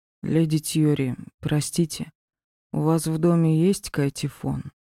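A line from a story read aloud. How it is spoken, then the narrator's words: Quiet inquiry. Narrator (Russian): Тихо поинтересовался Ди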